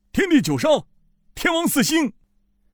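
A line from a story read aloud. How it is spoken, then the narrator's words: Sudden shout. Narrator (Chinese): 突然不知是谁喊道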